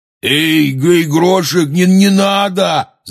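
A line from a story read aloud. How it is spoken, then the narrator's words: Shouted. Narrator (Russian): закричал Хагрид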